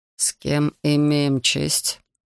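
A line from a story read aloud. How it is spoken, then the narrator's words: Muffled question. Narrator (Russian): глухо спросил офицер с забинтованной головой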